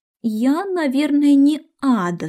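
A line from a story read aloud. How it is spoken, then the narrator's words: Plain. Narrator (Russian): сказала она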